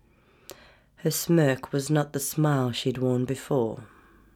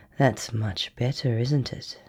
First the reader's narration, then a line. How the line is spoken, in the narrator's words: She murmured